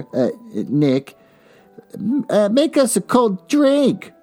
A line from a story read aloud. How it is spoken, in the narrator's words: cried Daisy